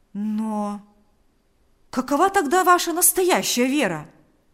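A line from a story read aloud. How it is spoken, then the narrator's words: Exclaimed. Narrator (Russian): воскликнул Павел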